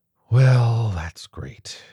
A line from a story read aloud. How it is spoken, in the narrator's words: she sighed